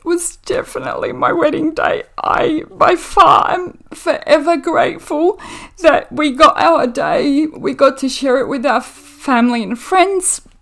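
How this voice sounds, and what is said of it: Emotional, choked-up voice. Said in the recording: “getting a little bit emotional here ... I've got it together now.”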